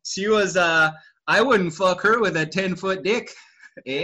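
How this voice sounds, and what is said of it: Put-on Canadian accent. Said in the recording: “is that how people in Toronto talk? ... In a Canadian accent.”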